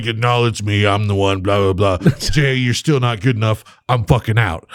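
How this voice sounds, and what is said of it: Imitates another person's voice. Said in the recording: “That was the best impression. ... I just love the way you did it.”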